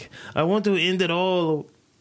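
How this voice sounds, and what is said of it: Put-on Asian-Jamaican sounding accent. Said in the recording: “That's not the accent for an old person. ... What accent was that? Is it Asian mixed with Jamaican or ... Eurasian?”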